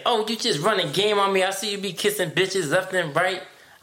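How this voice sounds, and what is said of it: Puts on a Black American voice. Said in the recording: “I gave a black voice”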